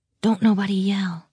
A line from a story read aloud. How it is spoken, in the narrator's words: she said softly